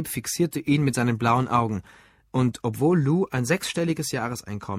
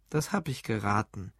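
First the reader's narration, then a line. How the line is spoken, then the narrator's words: Sarcastic reply. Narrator (German): antwortete Gabe sarkastisch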